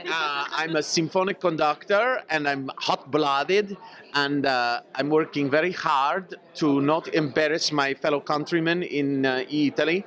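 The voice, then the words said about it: Put-on Italian accent. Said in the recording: “That's a great accent.”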